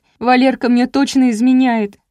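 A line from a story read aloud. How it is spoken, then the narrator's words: Sobbing. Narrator (Russian): зарыдала Леся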